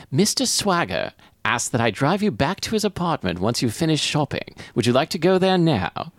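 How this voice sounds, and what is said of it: Poor British or Australian accent. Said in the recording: “That's my accent. Picked up in accent class, and now I'm going to drop it because it was not good. ... I'm not British or Australian, and I'm not sure which of the two I replied with.”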